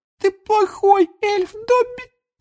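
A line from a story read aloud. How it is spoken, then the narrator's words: Tearful moan. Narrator (Russian): Простонала Винки, и слезы опять покатились из ее глаз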